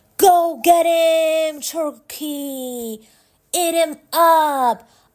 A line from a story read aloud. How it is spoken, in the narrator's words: The crowd yelled